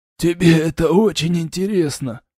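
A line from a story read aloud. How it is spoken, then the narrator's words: Little man's wheeze. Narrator (Russian): прохрипел человечек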